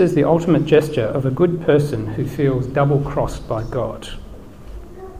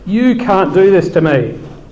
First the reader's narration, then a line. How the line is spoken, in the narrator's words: Drawing herself up to full fury, bellows